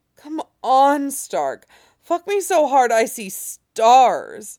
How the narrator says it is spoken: Jamie groaned and said

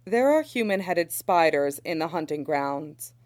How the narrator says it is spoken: she says

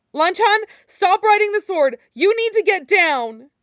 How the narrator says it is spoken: Wei Wuxian shouted

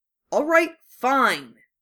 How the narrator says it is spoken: Harry snapped

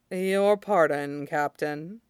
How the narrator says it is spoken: Shidan said dryly

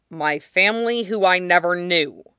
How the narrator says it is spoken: Zuko said harshly

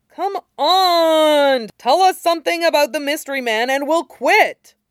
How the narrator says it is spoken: Yamada was whining

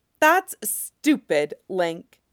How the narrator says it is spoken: she says angrily, choking a little

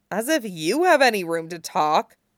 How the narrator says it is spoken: snorted

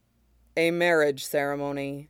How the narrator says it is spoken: says flatly

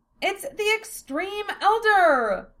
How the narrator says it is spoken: Philia cried out, messing up her line

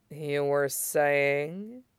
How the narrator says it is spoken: Aizawa murmured archly, pure velvet

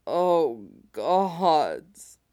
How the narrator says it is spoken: groaned, throat aching, skin tingling, still coming

